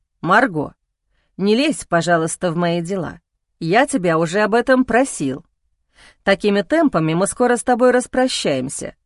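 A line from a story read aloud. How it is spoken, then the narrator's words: Stern reply. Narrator (Russian): строго ответил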